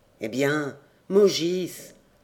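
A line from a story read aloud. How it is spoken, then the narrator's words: Grumbling. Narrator (French): grommela-t-elle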